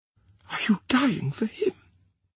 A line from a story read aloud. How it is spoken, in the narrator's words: she whispered